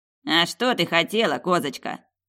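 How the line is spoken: Grumbling gatekeeper. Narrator (Russian): проворчал привратник

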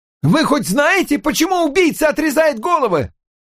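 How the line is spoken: Shouted. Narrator (Russian): крикнул кто-то еще

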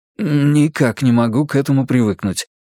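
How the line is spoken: Embarrassed grumble. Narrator (Russian): признался я, сглотнув, и проворчал смущенно

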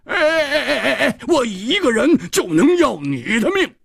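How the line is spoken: Loud roaring. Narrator (Chinese): 蝴蝶花 大声地吼着

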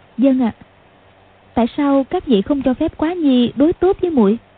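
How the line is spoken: Smiling. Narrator (Vietnamese): Tiểu Long Nữ mỉm cười nói

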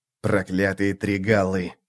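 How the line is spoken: Grumbling. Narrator (Russian): пробурчал Ток

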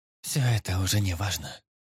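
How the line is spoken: Sad. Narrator (Russian): грустно покачала головой Эрис

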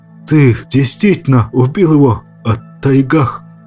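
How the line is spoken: Strained, forced out. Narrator (Russian): С трудом взяв себя в руки, выдавил снаб

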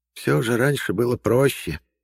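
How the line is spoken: Sighing. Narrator (Russian): вздохнула Марфа

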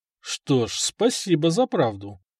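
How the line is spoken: Thoughtful. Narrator (Russian): задумчиво сказал

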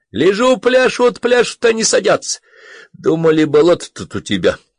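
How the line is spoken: Laughing. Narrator (Russian): Засмеялся

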